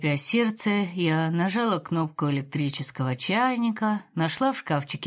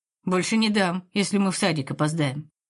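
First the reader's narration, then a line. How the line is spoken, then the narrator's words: Grumbling. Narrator (Russian): проворчала я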